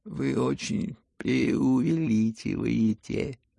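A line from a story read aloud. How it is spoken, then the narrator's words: Bored, slightly embarrassed drawl. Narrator (Russian): протянул Иван Петрович с некоторой скукой и даже как будто чего-то совестись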